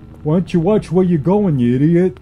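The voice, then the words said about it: Snarling New York accent. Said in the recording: “snarled the man in a New York accent”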